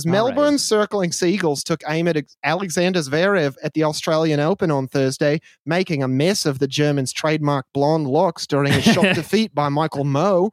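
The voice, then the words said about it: Put-on Australian accent. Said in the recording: “I'm just going to read the article in an Australian accent because it kind of demands it”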